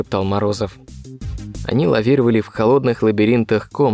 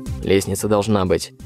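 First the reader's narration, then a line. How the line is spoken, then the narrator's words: Gruff mutter. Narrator (Russian): буркнул Морозов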